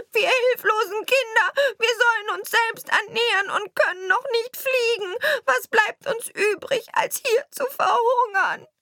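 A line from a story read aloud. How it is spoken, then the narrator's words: Young birds crying out. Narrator (German): Die armen Jungen schrien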